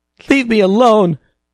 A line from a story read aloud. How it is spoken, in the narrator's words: Jean sobbed